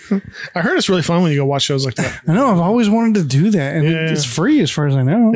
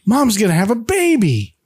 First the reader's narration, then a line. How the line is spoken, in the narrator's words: Bobby excitedly shouts